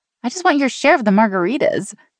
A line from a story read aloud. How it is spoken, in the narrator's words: Sean said with a giggle